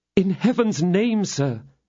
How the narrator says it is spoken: she exclaimed

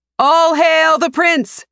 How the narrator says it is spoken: Their shouts and praises overlap as people celebrate Aker's homecoming

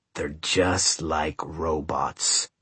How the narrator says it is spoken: El Patron muttered under his breath

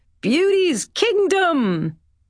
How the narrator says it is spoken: Bren shouted

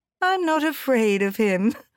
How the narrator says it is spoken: she laughed

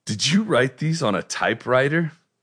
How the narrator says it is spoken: laughing, he said

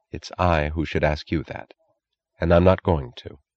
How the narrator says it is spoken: She said quietly

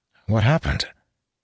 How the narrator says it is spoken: Laemon sighed

